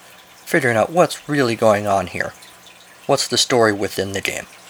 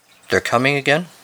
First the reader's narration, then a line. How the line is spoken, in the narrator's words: she said